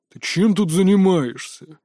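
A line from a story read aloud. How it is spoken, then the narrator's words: Deep bass, regulation tone. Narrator (Russian): уставным тоном пробасил здоровяк за моей спиной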